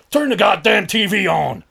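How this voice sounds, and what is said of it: Bad put-on American accent, shouting. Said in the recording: “Sorry for the bad American accent.”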